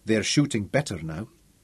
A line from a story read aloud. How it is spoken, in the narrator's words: Wilson said quietly